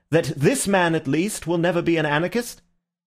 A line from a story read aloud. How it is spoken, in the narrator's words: called out Ratcliffe to the French colonel